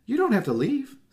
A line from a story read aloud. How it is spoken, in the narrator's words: Susie cried, suddenly finding her voice